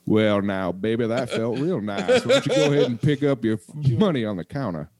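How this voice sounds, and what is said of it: Put-on Southern accent. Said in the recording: “Southern accent comes back.”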